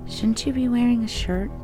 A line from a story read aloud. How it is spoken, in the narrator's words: in her little mouse voice, she says